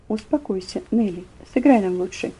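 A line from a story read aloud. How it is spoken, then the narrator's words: Low, firm voice. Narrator (Russian): господин Нейман вполголоса, но внушительно сказал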